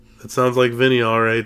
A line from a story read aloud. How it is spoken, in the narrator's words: Sam laughs